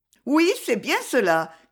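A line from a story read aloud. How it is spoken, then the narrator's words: Almost joyful shout. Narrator (French): cria Zoé presque joyeusement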